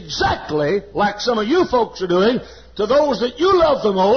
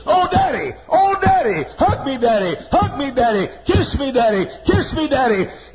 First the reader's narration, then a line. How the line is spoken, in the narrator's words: that son began to scream